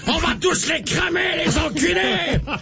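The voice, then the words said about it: Shouting in a put-on French accent. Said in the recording (French): “qu'il lâche des cris de mort avec un accent français.”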